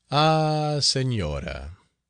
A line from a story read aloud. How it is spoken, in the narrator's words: he replied in a melancholy voice